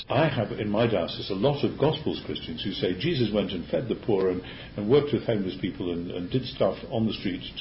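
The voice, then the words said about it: Strong accent, hard to follow. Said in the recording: “there's an accent involved here, so it might be a little bit... might be a little bit difficult to follow”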